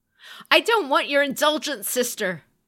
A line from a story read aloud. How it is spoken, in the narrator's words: he snapped back